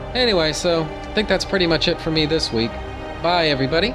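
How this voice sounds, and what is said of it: Hoarse, nasal, congested voice. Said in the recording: “I'm not sick in that episode ... my hoarse, quacky, honky, terrible sounding nasally voice right now”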